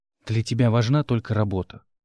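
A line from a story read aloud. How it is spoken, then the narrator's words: Sighing. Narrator (Russian): вздохнула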